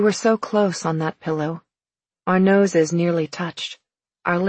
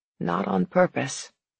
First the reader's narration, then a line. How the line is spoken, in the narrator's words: he said quietly